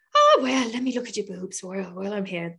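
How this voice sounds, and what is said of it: Bad put-on Irish accent. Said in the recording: “terrible Irish accent”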